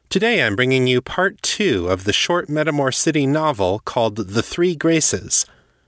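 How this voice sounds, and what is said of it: Slightly congested voice from cold. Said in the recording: “I've got a little bit of a cold this week. I don't know if you can tell or not”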